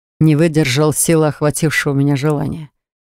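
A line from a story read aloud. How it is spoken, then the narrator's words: Dragon's amused snort. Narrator (Russian): хмыкнул дракон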